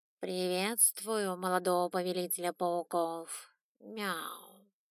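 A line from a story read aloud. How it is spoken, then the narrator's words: Purring. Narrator (Russian): Замурлыкал, так как все-таки было семейство кошачьих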